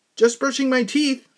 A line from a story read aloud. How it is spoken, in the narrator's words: I yelled